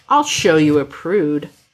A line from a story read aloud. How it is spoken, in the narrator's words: He growls, voice rough and thick